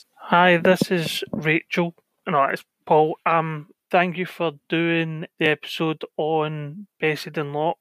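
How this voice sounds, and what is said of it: Man with a Scottish accent. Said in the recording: “Scottish. He has a very, obviously, a Scottish accent and obviously a man.”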